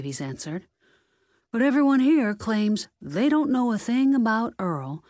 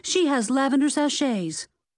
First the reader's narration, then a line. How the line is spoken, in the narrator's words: Lexi blurted out